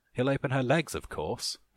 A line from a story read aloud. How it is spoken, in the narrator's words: Alice laughed